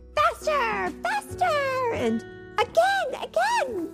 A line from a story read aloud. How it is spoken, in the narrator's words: she yelled in the wind